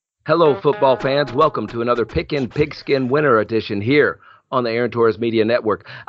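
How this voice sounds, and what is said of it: Scratchy, hoarse voice. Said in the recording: “my voice is a little bit scratchy”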